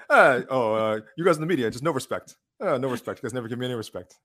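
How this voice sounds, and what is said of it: Dana White doing Rodney Dangerfield impression. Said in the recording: “your Dana White impression ... you mean this Dana White impression? ... Rodney Danafield. Rodney Danafield.”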